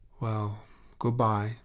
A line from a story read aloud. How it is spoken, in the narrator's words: he sighed